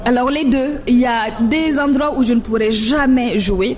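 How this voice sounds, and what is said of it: Strong French-speaking African accent. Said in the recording (French): “j'ai un accent à couper au coucou ... moi qui a un accent à couper au coupe-coupe”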